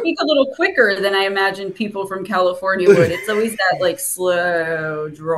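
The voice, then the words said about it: New Jersey accent. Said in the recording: “you got that great Jersey accent ... I love my Jersey accent”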